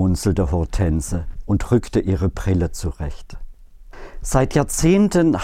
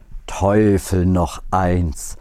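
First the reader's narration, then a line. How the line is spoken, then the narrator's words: Musing aloud. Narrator (German): grübelte Hortense laut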